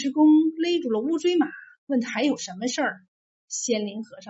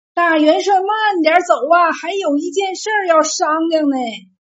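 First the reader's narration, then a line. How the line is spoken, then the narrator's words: Loud shout from behind. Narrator (Chinese): 仙林和尚在后面大喊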